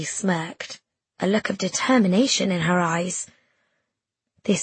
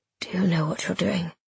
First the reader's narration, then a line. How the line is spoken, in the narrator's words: he whispered